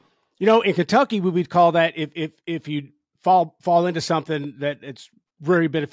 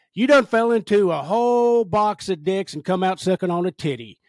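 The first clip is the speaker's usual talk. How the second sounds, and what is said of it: Exaggerated Kentucky accent. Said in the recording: “I'm going to do a better Kentucky accent, even though I'm from Kentucky. I'll Kentucky it up a little bit.”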